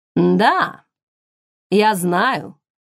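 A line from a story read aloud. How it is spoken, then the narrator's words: Plain. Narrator (Russian): ответил он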